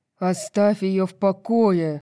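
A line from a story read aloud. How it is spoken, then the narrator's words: Growl. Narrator (Russian): прорычал Итан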